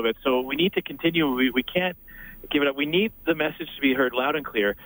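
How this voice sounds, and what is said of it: Hoarse, strained voice from yelling. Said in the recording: “I just a second lost my voice. I was up on a truck yelling into a CB radio for the last 7 minutes.”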